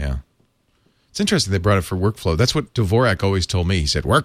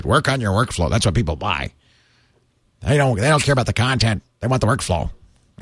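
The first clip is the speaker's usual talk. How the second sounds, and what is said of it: Bad impression of John Dvorak. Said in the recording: “my bad impression”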